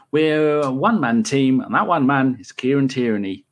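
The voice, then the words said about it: Put-on Irish accent. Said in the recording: “I say that in an Irish accent”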